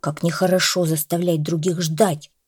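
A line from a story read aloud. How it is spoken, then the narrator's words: Grumbling. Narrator (Russian): пробурчал Гриша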